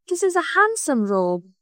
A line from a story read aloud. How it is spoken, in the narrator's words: he said sadly